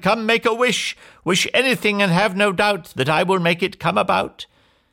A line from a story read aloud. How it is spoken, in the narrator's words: she cried